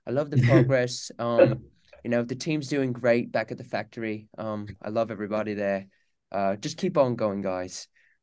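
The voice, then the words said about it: Calm put-on British accent. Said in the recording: “If I could do my British accent ... so calm”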